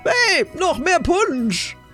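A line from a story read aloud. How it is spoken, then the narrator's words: Shouting. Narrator (German): eine Stimme rief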